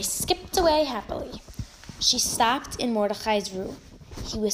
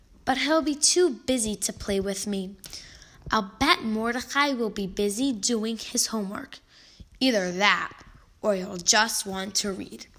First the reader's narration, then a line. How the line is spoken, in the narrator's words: Mary sighed and said